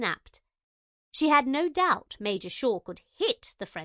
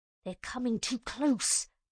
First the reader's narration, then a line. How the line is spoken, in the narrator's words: Major Shaw hissed